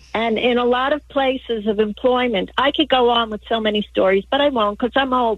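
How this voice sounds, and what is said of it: New York accent. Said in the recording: “are they telling me you're calling from New York? ... the accent.”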